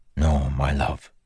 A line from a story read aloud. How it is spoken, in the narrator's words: he whispered